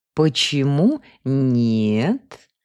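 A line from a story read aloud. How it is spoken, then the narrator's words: Alluring, low purr. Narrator (Russian): манящим грудным голосом промурлыкала она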